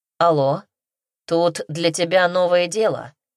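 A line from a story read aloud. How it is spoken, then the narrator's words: Male voice, grumbling. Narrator (Russian): пробурчал мужской голос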